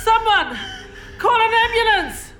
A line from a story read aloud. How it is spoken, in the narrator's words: One of the fire yells out